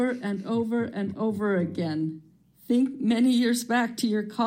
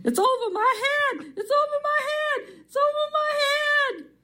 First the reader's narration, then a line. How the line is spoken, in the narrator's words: She kept yelling